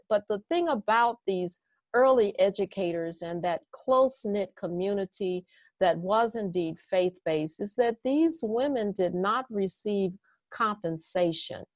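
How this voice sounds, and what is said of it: Southern Midwestern accent. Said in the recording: “it's a Southern Midwestern accent ... I have a Southern Midwestern accent”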